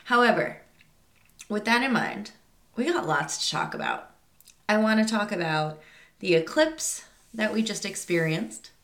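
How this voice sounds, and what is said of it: Slightly congested, stuffed-up voice. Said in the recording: “I sound a little stuffed up, but my allergies are definitely getting the best of me ... itchy nose and itchy throat”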